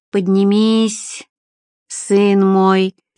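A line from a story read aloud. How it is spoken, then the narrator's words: Cracked bass, priest. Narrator (Russian): надтреснутым басом призвал священнослужитель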